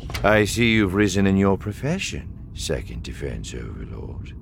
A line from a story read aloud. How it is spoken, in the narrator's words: Thrawn said calmly